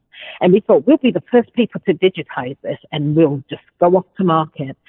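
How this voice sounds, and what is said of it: British accent. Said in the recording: “obviously you have a British accent”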